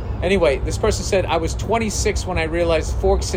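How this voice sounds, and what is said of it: Usual voice. Nothing is said of it.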